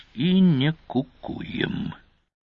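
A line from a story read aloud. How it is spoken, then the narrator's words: Barely audible mutter. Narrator (Russian): Едва слышно, командир добавил себе под нос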